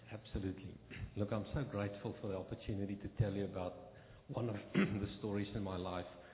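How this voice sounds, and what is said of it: South African accent. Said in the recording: “has a great accent ... He's from South Africa.”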